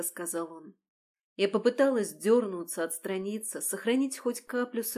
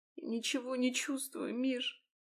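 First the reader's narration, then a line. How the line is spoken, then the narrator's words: Muffled sobbing woman. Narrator (Russian): всхлипнула я ему в грудь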